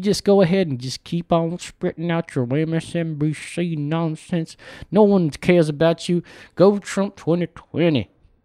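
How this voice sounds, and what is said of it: Put-on Deep South accent. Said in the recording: “You didn't have an accent, and now all of a sudden you're from somewhere deep in the South ... Maybe the panhandle of Florida”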